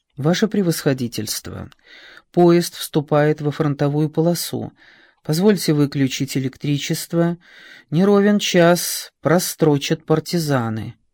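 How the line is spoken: Ingratiating, soft-spoken officer. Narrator (Russian): дежурный офицер, вкрадчиво сказал

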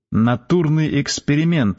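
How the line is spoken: Plain. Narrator (Russian): сказал Костя

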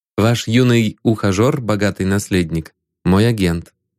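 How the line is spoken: Plain. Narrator (Russian): сказал он

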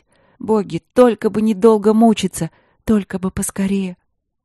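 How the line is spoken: Thin pitiful crying. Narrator (Russian): Василина тоненько, жалобно заплакала, от боли и страха

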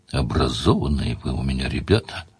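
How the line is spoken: Thoughtful. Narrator (Russian): сказал Сварог задумчиво

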